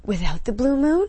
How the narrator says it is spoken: She gasped

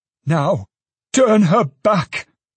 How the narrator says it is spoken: exclaimed the old man

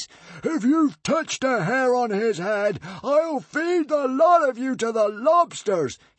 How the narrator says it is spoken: he roared

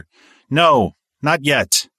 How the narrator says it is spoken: He was already halfway down the hall when he yelled over his shoulder

